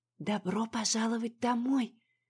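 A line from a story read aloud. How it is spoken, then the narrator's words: Whispered. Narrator (Russian): шепнула мне Марья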